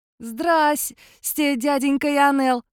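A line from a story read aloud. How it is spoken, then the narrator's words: Joyful greeting. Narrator (Russian): радостно поприветствовал он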